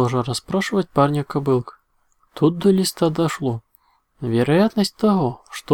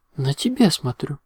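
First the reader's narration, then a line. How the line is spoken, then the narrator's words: Serious. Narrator (Russian): Серьезным голосом ответила Аликорн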